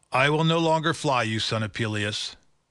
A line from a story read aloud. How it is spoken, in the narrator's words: said he